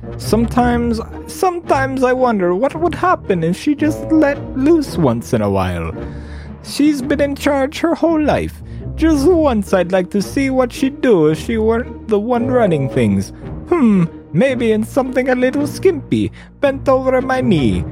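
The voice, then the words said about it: Reads in a character voice. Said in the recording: “I'm glad I'm reading this in a voice. This would be very hard to read in my own voice. ... I'm glad we've picked a nice voice for Jason.”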